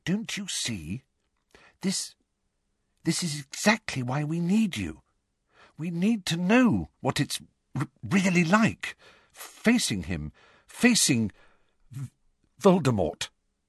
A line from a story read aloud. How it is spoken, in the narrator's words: she said timidly